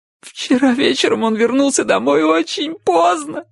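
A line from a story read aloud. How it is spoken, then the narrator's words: Choking on sobs. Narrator (Russian): захлебываясь от рыданий, проговорила Чарли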